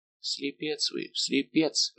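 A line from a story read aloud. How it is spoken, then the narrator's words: Whisper. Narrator (Russian): прошептал Арамис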